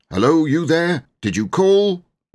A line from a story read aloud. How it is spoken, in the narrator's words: Andrew shouted